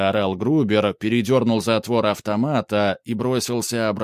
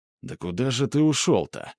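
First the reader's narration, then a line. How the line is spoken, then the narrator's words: Muttering. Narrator (Russian): бормотал Грубер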